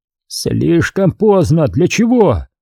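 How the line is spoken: Yelled reply. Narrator (Russian): завопил в ответ

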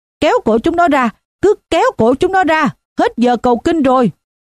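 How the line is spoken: Drunk man shouting. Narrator (Vietnamese): Một tên say rượu khác hét

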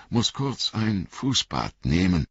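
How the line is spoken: Male stammering. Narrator (German): stammelte er

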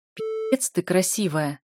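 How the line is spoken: Hoarse rasp. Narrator (Russian): хрипит Феликс

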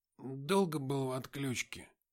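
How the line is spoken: Mumbled. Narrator (Russian): промямлил я

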